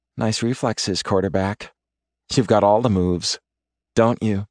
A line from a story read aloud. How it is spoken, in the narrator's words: Her tone is tart